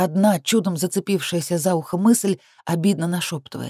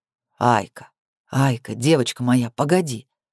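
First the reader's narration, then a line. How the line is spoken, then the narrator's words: Muffled murmur. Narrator (Russian): бормочет в макушку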